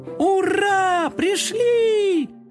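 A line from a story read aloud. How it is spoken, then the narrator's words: Tired happy chorus shout. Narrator (Russian): хором закричали уставшие, но довольные коты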